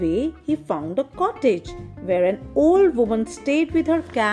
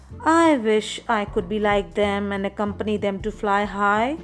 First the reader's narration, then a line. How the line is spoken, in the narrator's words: he sighed